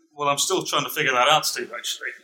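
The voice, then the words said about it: British accent. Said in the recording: “I think his job is mostly to speak with a British accent and sound good.”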